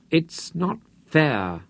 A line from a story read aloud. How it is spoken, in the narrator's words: Santaine said miserably